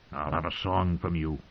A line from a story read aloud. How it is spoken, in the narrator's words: he rasped